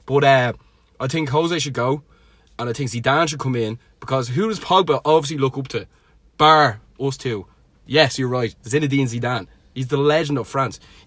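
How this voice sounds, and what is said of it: Louis van Gaal impression. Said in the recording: “great Louis van Gaal impression”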